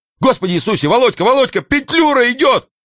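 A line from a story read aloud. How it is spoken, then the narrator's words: Frantic townsman shouting. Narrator (Russian): какой-то мещанин, кричал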